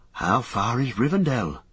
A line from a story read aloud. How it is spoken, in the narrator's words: asked Merry wearily